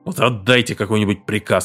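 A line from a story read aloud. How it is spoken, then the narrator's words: Snapping back. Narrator (Russian): огрызнулся Уоткинс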